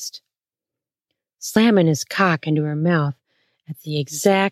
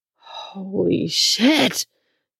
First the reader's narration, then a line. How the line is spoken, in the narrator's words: Don moaned